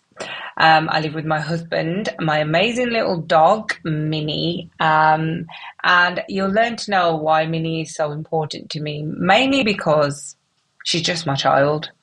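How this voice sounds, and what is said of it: Mixed English regional accent. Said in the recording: “I'm ... from Wolverhampton with a little bit of a wonky accent because about nine years ago I got married and I ended up living in the North”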